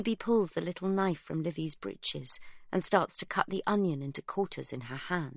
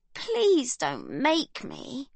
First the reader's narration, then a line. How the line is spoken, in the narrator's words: Livy moans, pinching her nose between her fingers